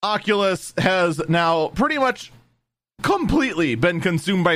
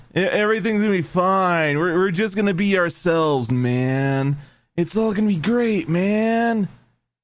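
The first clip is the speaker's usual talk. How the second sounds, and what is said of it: Bad impression of oblivious hippie. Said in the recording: “my terrible impression of an oblivious hippie”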